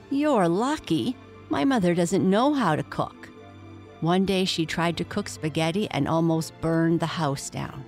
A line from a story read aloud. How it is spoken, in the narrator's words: Rachel said with a sigh